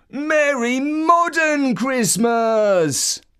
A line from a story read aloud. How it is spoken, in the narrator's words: the biggest kid of all, who stuffed himself with sweets and chocolate and got massively overexcited and shouted